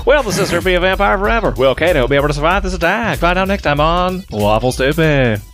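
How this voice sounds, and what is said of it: Dramatic radio announcer voice. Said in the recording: “radio voice”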